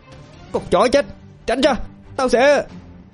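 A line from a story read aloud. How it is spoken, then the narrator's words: Enraged shout. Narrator (Vietnamese): Diệp Hằng lại càng điên máu tận hơn, nó hét lên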